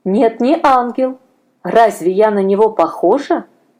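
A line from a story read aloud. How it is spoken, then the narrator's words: Plain. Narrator (Russian): спросила незнакомка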